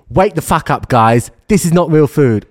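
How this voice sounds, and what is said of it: Imitates another person's voice. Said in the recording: “Your accent isn't too good for Eddie Abue”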